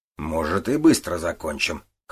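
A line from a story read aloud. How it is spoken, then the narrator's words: Snort. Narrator (Russian): хмыкнул Гуров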